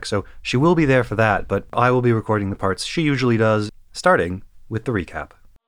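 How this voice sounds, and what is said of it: Slightly weird, sick-sounding voice. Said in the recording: “my voice sounds a bit weird this week, it's because I have once again been indulging in my passion for getting sick”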